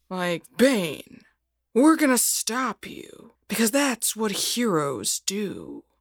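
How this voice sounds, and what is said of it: Batman character voice. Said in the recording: “I considered doing the Adam West Batman”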